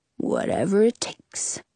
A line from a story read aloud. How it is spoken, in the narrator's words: Frederick mutters